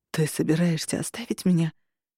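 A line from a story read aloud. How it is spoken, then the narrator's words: Barely audible breath. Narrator (Russian): Еле слышно выдохнул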